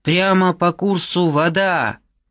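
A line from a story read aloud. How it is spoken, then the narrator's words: Shouted. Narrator (Russian): прокричала кому-то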